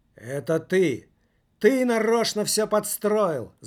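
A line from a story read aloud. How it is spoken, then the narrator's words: Teenager shouting. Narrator (Russian): закричал подросток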